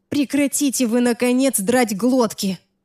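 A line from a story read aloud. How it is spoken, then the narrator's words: Irritated groan. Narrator (Russian): раздраженно простонала я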